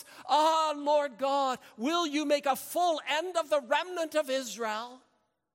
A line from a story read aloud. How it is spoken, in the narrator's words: Ezekiel fell on his face and cried with a loud voice